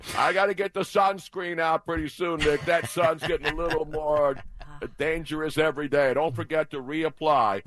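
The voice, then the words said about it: Harry Kalas impression. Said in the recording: “doing his Harry Callis impression.”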